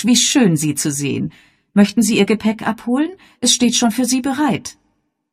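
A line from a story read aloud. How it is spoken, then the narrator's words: Calling out. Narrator (German): rief Miss Gorringe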